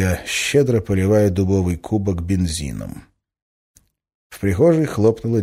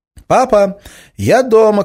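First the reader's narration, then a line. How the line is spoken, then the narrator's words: Shouting. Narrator (Russian): крикнула Надя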